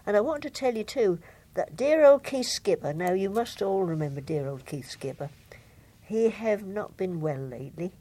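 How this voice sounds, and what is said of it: Norfolk accent. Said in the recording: “we must keep the old Norfolk accent going”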